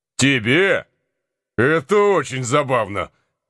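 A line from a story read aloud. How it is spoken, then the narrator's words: Heated exclamation. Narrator (Russian): воскликнул скорый, покраснев в запальчивости от того равнодушия, с каким его товарищ отозвался о девушке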